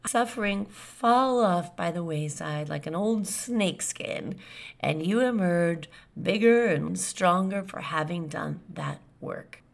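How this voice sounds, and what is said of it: Raspy, hoarse voice. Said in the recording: “putting up with my raspy voice, but at least I'm glad it's back”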